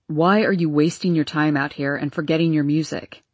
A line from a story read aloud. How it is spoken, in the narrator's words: he asked harshly